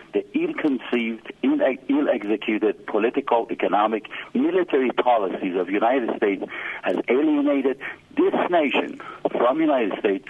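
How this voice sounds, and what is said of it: Iranian-accented English. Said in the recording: “I live in Iran ... you can recognize from my accent”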